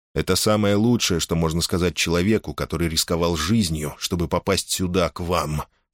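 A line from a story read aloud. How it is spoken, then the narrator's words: Angry reply. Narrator (Russian): сердито ответил Гордон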